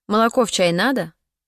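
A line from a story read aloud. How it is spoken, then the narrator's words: Spiteful question. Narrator (Russian): злобно спросила Олуэн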